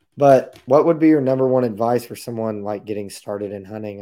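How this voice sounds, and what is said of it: Raspy, hoarse voice. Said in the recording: “my really raspy voice. I'm trying to gain that back. I've been sucking on some tea and honey and cough drops, and it ain't working”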